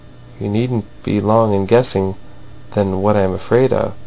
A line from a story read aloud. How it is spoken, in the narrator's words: she continued in a bitter and somber murmur